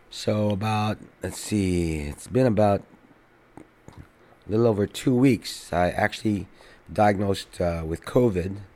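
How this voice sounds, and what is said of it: Sick-sounding voice. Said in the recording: “you can tell by my voice, I've been sick here”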